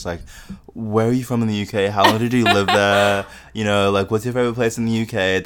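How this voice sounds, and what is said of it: Australian accent, sometimes heard as British. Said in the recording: “how do you think people notice that you have an Australian accent too? ... people actually think a lot of the time that I have a British accent ... people will be like, oh, you sound so British.”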